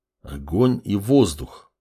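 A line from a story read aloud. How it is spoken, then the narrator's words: Doubtful mutter. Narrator (Russian): пробормотал с сомнением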